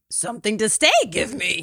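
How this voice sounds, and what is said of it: Yoda-style character voice. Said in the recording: “talk like Yoda”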